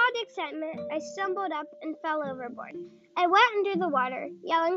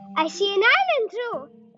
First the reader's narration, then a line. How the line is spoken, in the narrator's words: I heard Timothy shout